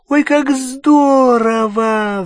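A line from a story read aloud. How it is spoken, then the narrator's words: Squealing. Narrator (Russian): взвизгнула Гермиона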